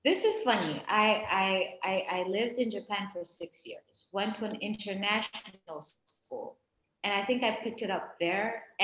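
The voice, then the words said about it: American accent. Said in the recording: “your American accent”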